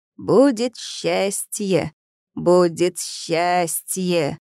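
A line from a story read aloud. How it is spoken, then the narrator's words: Sudden creaky voice. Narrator (Russian): Гоша неожиданно проскрипел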